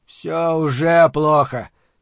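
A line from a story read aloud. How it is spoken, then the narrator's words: Grumbling. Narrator (Russian): проворчал Торсит Магнисон, начальник управления общественной безопасности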